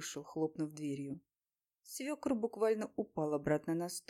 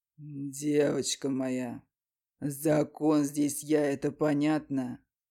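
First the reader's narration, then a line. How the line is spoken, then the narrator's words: Growling. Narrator (Russian): Рыкнул он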